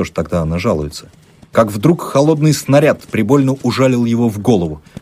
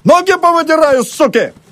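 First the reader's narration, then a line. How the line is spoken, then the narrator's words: Yelling. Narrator (Russian): орал Емельян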